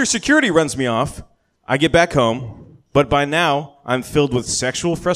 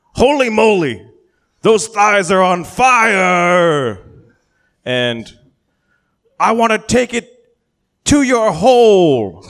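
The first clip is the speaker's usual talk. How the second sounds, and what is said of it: Shouted imitation of another person's voice. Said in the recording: “shout ... I don't do a very good Marv Albert impression”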